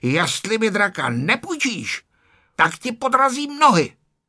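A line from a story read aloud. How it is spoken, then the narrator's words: Angry shouting. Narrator (Czech): Ferda se začal zlobit a křičel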